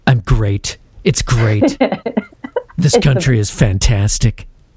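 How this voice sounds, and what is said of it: Donald Trump impression. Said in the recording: “You do a better Trump impersonation. ... My Trump impersonation is fantastic.”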